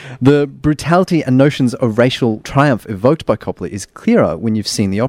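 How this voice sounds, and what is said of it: Usual voice. Nothing is said of it.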